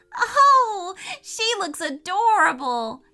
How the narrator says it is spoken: cried Lydia with joy

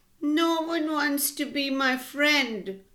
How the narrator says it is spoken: Limo said sadly

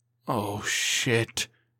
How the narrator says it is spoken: he muttered

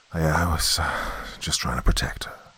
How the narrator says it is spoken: Dad said weakly

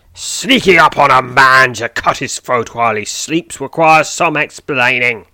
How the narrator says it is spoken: he snarls

